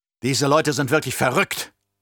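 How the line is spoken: Emperor, angry snorting. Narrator (German): schnaufte der Imperator wütend

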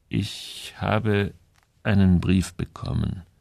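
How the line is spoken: Slow, strained. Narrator (German): sagte er langsam, als ob ihn jedes Wort anstrengte

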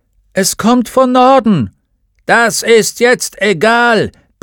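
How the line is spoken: Bellowing. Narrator (German): brüllte der Vorsitzende

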